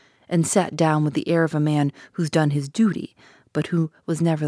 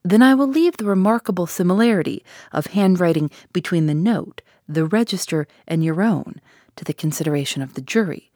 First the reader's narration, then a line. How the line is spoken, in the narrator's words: said Mr